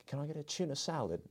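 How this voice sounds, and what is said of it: Imitated Australian accent. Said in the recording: “I hear her Australian accent.”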